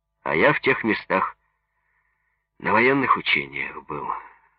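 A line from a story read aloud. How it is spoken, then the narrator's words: Sigh. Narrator (Russian): вздохнул Пугачев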